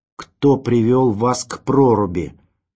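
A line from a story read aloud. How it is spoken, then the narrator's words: Loud, as to deaf person. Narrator (Russian): громко, как глухого, спросил Ванзаров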